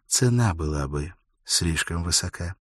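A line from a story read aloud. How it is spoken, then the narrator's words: Quiet. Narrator (Russian): Элис тихо произнесла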